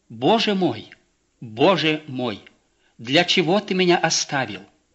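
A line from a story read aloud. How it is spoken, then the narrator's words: Lonely anguished exclamation. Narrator (Russian): испытывая одиночество, обращаясь к своему Отцу Небесному, воскликнул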